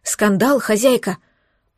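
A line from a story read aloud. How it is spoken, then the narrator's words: Frightened gurgle. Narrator (Russian): пробулькала та испуганно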